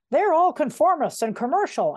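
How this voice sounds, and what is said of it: Grumpy old man voice. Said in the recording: “I gave that a grumpy old man voice ... it feels grumpy”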